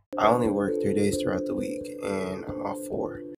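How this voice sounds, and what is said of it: Voice affected by illness. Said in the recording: “sorry about my voice ... I have been sick”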